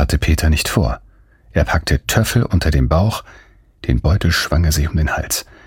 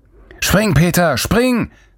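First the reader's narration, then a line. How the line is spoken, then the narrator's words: Distant roar. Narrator (German): brüllte Lorenz von der anderen Seite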